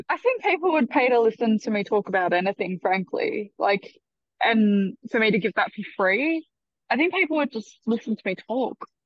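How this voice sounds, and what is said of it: Australian accent. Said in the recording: “everyone likes the Australian accent ... Australian accent's just a rubbish English accent, though”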